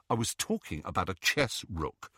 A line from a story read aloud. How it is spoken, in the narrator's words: said Ron